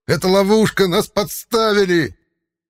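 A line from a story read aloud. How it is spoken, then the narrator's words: Yelled loudly. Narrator (Russian): заорал на весь коридор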